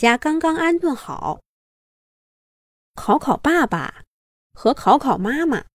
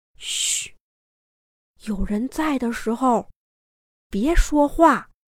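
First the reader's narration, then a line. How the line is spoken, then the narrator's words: Hushed voice. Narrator (Chinese): 大床木木压低了嗓门对暖暖说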